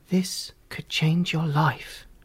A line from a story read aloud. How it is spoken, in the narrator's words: whispered